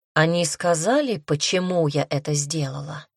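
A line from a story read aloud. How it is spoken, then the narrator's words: Soft question. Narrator (Russian): спросила мягко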